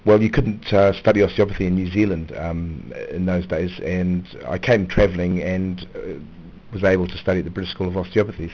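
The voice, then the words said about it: New Zealand accent. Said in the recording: “you've got a great accent ... I'm from Auckland in New Zealand.”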